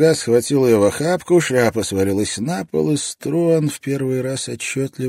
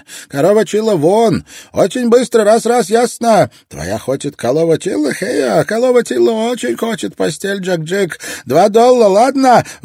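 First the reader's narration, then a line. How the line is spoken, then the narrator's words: Shout. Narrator (Russian): выкрикнула девушка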